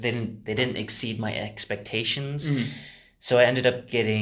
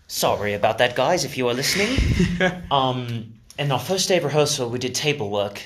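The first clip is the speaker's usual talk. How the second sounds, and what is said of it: Put-on posh British RP accent. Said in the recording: “the Ah-Pay accent ... I'm just gonna talk in my Ah-Pay for a little bit ... I'll talk in British”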